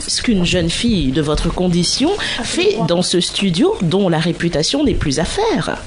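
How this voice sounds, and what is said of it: King character voice. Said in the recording (French): “C'est le roi, ça.”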